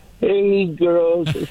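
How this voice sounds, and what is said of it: Poor, low-pitched Mrs. Garrett impression. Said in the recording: “I can't get up that high anymore... See, I told you I can't get up that high... that was horrible”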